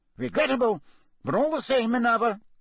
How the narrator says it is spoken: Cornelius Fudge was saying loudly

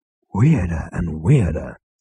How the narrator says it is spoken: breathed Zaphod

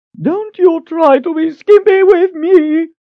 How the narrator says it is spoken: Lady Ordith shrieked

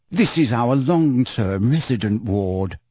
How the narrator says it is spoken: she informed Harry, Ron, Hermione, and Ginny in a low voice

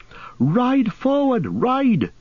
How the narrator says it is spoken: cried Glorfindel to Frodo

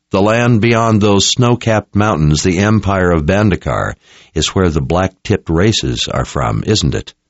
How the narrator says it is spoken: Richard said

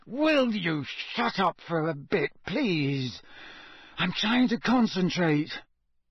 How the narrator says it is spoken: Harry said through gritted teeth

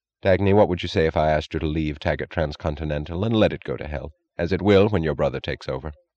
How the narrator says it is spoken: Without transition or warning, he asked, his voice oddly unstressed

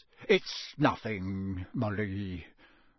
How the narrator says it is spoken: mumbled Mr

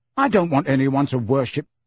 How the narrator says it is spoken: Harry began hotly

